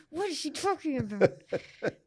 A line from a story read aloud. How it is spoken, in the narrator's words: George is like muttering behind them